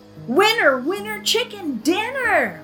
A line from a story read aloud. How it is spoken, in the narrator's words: hollered Trudy